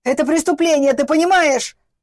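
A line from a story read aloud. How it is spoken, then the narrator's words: Father shouting. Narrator (Russian): закричал ее всегда немногословный отец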